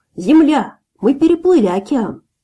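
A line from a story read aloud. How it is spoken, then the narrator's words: Shouted. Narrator (Russian): я крикнул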